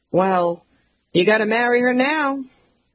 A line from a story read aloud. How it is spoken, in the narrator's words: My mom sighs